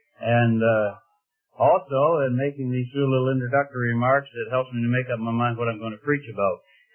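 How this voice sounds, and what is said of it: Midwestern nasal twang. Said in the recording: “I have a Midwestern nasal twang ... my nasal twang ... I talk through my nose”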